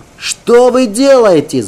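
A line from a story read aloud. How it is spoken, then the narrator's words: Shouted. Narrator (Russian): закричал я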